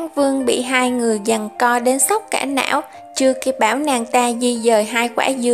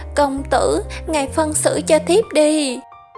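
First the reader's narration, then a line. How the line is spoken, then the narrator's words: Sobbing. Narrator (Vietnamese): vừa cọ vừa nức nở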